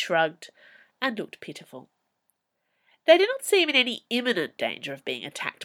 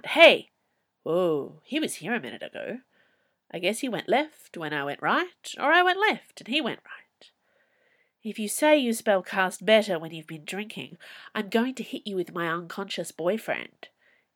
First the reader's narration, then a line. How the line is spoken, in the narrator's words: Hebe said icily